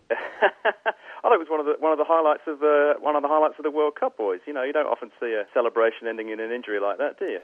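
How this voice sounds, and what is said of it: English accent. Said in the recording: “your accent shows, that you are English”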